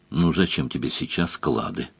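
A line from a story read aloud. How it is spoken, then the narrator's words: Gentle question. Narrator (Russian): ласково спросила Мара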